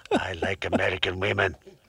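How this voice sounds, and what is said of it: Imitates another person's voice, accent drifting. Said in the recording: “Thank you, Mr. Putin. ... That's the first impersonation I've heard that was straddling two continents. ... might have been India.”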